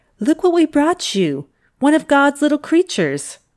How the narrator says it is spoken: she said happily

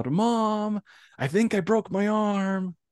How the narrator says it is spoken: I just yelled really loud

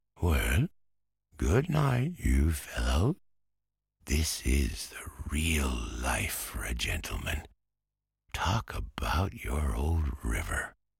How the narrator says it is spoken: Toad sleepily said

